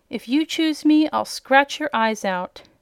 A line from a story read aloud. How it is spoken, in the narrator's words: cried Indigo